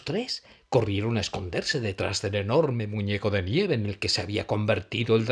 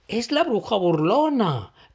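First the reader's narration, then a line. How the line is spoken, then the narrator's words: Astonished exclamation. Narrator (Spanish): exclamó Gussie asombrado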